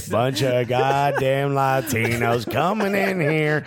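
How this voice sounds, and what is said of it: Put-on American southern accent. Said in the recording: “I don't know why anyone's got a southern accent in this scenario.”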